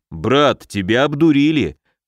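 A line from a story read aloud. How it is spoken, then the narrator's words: Grumbling. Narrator (Russian): проворчал Муром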